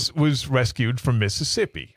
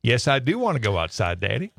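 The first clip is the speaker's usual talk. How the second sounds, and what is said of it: Put-on southern accent. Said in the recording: “she had a bit of a southern accent ... she answers in a southern accent.”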